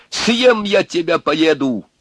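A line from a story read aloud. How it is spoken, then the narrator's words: Shout into silence. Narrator (Russian): закричал он в тишину, в ночь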